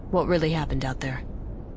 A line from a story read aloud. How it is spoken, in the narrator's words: Aiden asked in a low voice